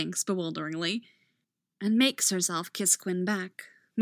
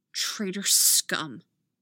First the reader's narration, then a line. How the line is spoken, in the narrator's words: she says coldly